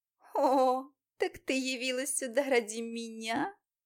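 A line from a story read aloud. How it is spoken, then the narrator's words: Mocking. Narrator (Russian): насмешливо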